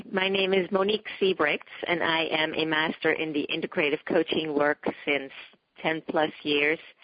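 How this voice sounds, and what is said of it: Dutch accent. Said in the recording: “as you can hear, I have an accent. I grew up in the Netherlands ... in the city of Amsterdam”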